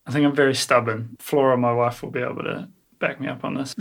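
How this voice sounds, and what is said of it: New Zealand accent. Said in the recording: “a Kiwi thing about you ... besides your accent”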